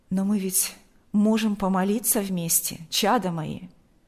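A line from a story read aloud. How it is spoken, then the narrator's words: Plain. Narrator (Russian): сказал отец Кирилл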